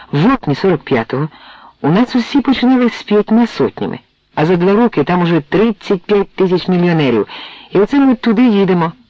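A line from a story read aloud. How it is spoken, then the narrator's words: Exclaiming. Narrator (Ukrainian): вигукнув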